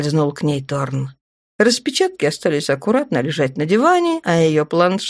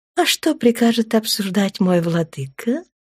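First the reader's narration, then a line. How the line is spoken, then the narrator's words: Purring woman. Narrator (Russian): Промурлыкала землянка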